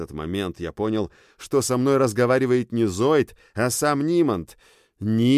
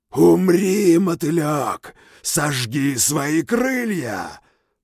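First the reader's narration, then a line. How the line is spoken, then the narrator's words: Deafening roar. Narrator (Russian): оглушительно взревел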